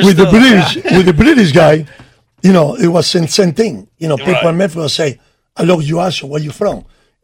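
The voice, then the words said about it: Non-native accented broken English. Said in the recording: “I love your accent ... They would love my accent with my broken English”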